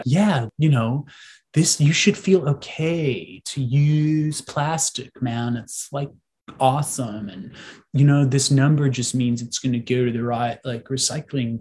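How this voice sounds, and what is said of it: Put-on California accent. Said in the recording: “I don't even know why I'm doing the California accent”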